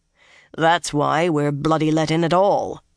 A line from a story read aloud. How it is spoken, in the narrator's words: Uno said dryly